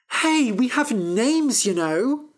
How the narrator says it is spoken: cried Fennel

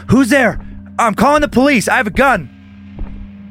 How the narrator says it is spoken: yell

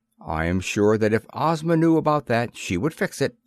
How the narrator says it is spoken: said the Shaggy Man kindly

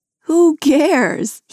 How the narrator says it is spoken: He laughs

